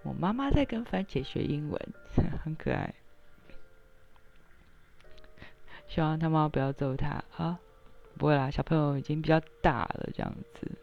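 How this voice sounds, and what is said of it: Strained, barely-there voice. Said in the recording (Chinese): “我今天稍微好一点，因为我今天实在是能发出声音已经不错了，我很努力”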